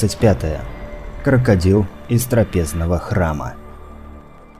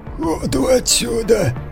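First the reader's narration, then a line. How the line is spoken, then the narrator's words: Creaky voice. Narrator (Russian): проскрипел Маркус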